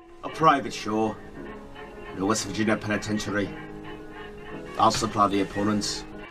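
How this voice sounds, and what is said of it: Unconvincing fake Scottish accent. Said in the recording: “the worst Scottish accent in the world ... that fucking accent ... He's like nearly Scottish.”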